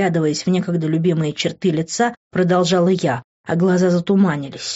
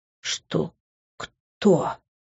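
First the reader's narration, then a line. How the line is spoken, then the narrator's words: Whisper. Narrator (Russian): прошептал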